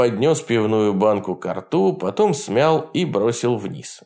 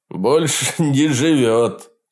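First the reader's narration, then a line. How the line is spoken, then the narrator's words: Short laugh. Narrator (Russian): капитан Фрэнк хохотнул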